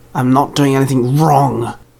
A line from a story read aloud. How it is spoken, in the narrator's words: Charlie growled